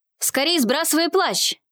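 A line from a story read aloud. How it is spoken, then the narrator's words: Shouting. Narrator (Russian): закричал Арсений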